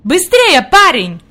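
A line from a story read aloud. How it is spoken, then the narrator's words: Shout. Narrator (Russian): крикнул господин Сесман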